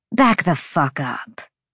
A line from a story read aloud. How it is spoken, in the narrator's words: Sabine snarled